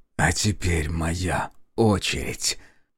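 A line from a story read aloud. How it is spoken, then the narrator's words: Snarling hiss. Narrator (Russian): Оскалившись, прошипел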